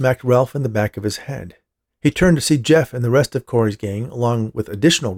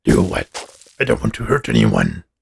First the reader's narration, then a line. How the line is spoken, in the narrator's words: Abe growled